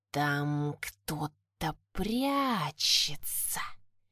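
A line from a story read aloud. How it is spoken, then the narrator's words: Reptilian hiss. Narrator (Russian): прошипел ящер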